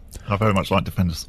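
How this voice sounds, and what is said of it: Imitates another person's voice. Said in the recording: “my best man impression ... I was just doing an impression.”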